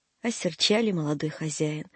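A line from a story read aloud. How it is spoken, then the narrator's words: Sad. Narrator (Russian): грустно сказал Сидор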